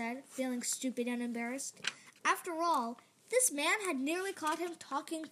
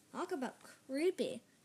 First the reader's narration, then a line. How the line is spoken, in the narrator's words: Noah mumbled